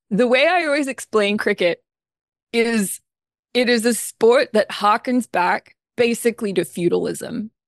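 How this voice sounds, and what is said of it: Australian accent. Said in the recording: “I'm an Australian, as you may or may not be able to tell from my accent.”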